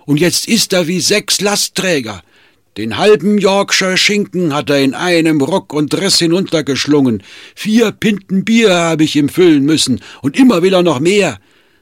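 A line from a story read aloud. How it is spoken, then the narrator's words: Calling across the street. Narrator (German): rief über die Straße zu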